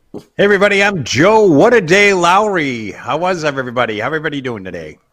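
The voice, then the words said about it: Radio announcer voice. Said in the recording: “I love that voice... a radio board, voice”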